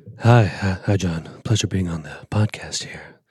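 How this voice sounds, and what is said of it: Smooth, sexy podcast-style voice. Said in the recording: “Really nice, sexy podcast voice”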